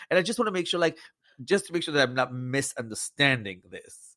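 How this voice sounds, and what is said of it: Belgian accent in English. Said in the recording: “I didn't grow up here, right? That's the accent. I'm Belgian.”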